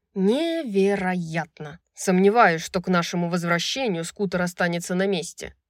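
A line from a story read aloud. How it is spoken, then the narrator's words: Growled. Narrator (Russian): прорычал Хант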